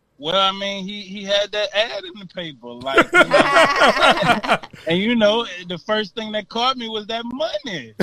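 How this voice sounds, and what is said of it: Virginia regional accent. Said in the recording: “I'm hearing the accent in this conversation ... 804 bound, man. VA.”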